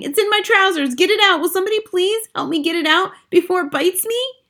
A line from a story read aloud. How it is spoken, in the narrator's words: the stupid cook still shouting